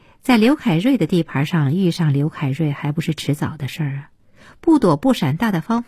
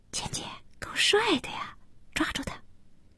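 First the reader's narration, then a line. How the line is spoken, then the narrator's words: Girl whispering. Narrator (Chinese): 一个小姑娘 对简家悄声地说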